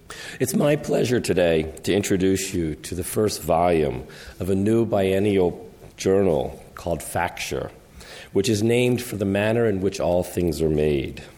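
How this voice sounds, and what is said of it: Unusually low, deep voice. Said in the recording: “My voice is not normally this low”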